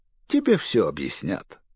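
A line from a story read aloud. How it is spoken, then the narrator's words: Gentle laugh. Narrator (Russian): ласково засмеялся он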